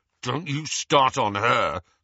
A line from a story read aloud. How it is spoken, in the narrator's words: snarled Ron